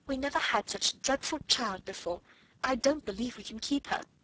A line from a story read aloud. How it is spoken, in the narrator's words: almost whispered Miss Amelia